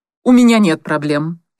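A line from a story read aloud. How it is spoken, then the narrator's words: Sharp reply. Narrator (Russian): резко ответила Анита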